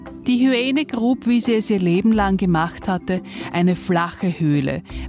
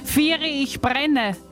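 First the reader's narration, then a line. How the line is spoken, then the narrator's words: Shouting in mock panic. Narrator (German): schrie in gespielter Panik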